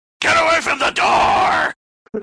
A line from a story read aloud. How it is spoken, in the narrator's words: I screamed like Reagan from The Exorcist